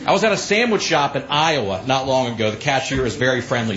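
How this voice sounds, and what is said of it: Southern US accent. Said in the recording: “oh, you have an accent. Where are you from? I said, I'm from Alabama”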